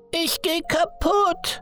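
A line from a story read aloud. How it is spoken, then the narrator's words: Roaring. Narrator (German): brüllte Liam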